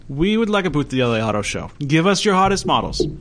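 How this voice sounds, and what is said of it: Fake Italian accent. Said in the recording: “Can you fake Italian accent?”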